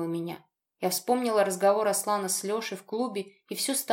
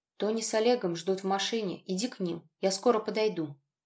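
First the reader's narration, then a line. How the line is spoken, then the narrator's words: Quiet, gentle. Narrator (Russian): тихо сказал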